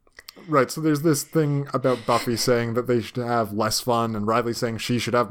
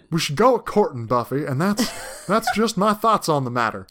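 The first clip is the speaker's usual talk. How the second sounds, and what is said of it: Put-on accent. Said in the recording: “this accent”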